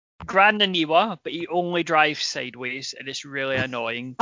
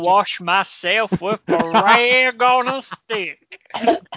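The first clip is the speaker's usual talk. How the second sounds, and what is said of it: Put-on Nebraska voice. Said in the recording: “doing the Nebraska voice again”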